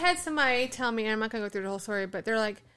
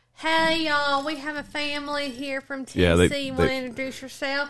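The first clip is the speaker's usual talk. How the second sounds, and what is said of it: Fake Southern accent. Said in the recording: “They did the fake Southern accent.”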